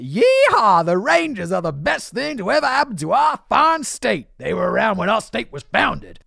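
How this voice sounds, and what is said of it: Bad put-on Texan accent. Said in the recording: “Are all the Texas people going to be in the comments being like ... I know my accent's bad”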